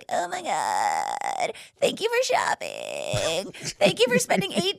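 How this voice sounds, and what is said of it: Exaggerated vocal fry voice. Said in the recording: “I love that voice... It's my vocal fry.”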